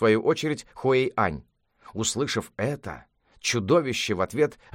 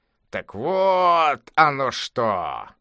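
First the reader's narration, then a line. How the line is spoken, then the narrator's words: Monster exclaiming. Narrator (Russian): воскликнуло чудовище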